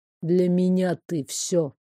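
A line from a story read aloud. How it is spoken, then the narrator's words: Quiet. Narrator (Russian): тихо сказал Картер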